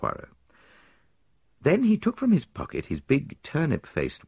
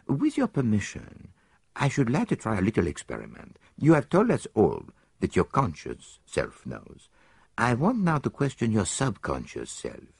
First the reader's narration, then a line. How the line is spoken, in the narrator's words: he said gently